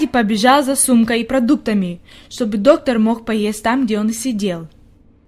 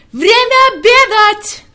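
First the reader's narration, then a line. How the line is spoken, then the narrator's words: Shouting with full force. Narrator (Russian): Он изо всех сил закричал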